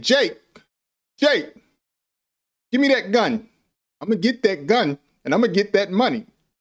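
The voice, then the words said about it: Denzel Washington impression. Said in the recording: “So I'm mimicking Denzel Washington. I am copying or trying to replicate his voice as well as his mannerisms.”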